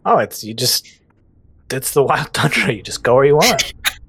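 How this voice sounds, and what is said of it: Character voice with British accent. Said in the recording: “What was that voice? ... British.”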